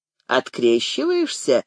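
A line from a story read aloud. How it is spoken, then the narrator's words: Snide, mocking. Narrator (Russian): ехидно прищурился Виктор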